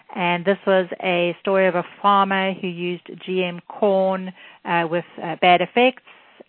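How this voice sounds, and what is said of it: South African accent. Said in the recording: “South Africa, which is where I'm from, in case you're wondering about the accent.”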